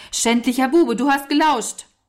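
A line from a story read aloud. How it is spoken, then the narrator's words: Calling out. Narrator (German): Walter ... rief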